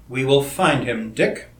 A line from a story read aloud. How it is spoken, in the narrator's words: Crane replied, in a level, deadly voice entirely unlike his usual tone